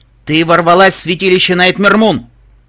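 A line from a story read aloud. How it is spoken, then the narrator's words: Icy cold voice. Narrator (Russian): сказала она ледяным голосом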